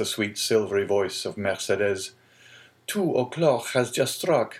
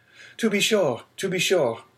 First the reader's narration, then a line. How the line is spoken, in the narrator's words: cried Dante, eagerly